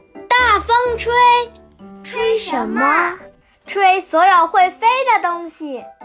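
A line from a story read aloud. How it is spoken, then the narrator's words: Shouting with full force. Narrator (Chinese): 赛弗使出全身的力气，大声喊道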